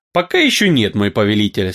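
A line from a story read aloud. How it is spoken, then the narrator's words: Calm wizard reply. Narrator (Russian): спокойно ответил красный волшебник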